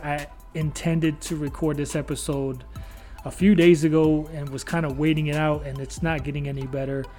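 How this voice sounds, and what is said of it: Rough, strained unwell voice. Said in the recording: “my voice sounds terrible on this episode ... My voice has been kind of down the last couple of days”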